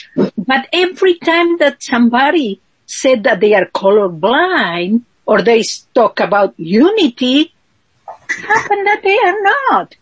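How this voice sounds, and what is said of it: Strong non-native English accent. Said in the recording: “I'm sorry for my strong accent, but you know, English is not my first language”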